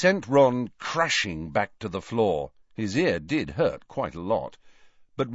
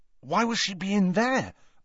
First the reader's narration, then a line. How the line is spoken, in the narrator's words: asked anxiously, hurrying to keep up